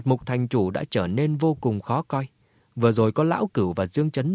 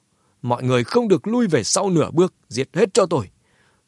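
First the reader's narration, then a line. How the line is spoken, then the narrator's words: Old man shouting. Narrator (Vietnamese): lão ta hét to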